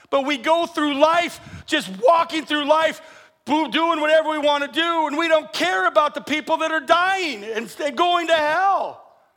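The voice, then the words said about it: Yelling, loud preaching voice. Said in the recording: “I know I'm yelling, I'm sorry.”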